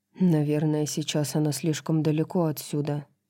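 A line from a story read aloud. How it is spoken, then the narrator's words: Grumbling. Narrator (Russian): проворчал Итан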